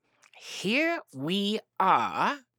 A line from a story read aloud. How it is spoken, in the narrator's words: said Rabbit very slowly and carefully